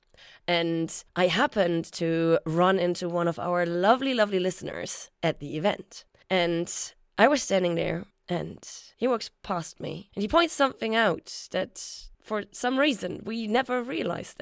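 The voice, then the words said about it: Hoarse, partly lost voice. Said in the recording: “my voice is a bit gone”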